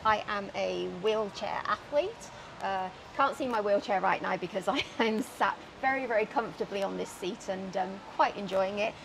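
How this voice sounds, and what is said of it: British accent. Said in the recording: “originally you might be able to tell from the accent, from the ... UK ... Fellow Brit ... I haven't managed to shake it”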